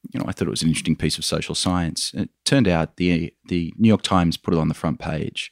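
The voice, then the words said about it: Australian accent. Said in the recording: “You can probably tell by my accent, Michael, I'm an Australian.”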